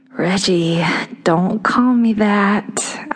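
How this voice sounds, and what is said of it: Sweet Southern drawl. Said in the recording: “I intoned in my sweetest southern drawl.”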